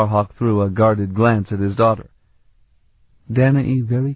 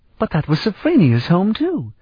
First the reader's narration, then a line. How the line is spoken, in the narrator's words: Elana exclaimed